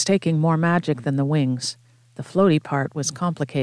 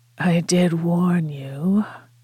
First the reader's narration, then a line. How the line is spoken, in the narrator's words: Frank said, in a rasping tone, nothing like his usual smooth boredom